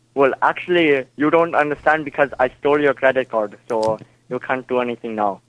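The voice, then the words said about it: Put-on Indian accent. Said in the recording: “that's a pretty good fake accent you're putting on there, if it is in fact fake ... you're speaking in an Indian accent”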